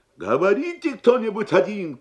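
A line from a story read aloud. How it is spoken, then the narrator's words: Shouted. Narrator (Russian): крикнул дядя Сандро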